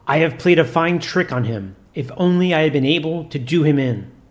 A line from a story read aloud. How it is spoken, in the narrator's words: cried